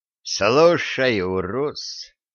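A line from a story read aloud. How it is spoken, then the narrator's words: Slow, careful merchant. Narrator (Russian): медленно подбирая слова, заговорил купец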